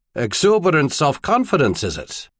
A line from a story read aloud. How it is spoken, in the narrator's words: Lock Island snorted